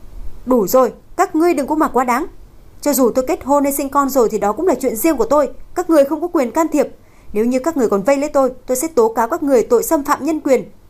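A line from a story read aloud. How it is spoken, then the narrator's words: Angry shout. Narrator (Vietnamese): Cô tức giận quát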